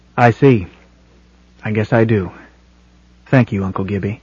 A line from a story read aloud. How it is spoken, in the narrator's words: said gravely